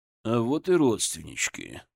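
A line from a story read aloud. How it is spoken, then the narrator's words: Muttered. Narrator (Russian): пробормотал Зотов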